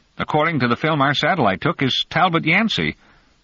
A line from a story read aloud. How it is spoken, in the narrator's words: Sensio blurted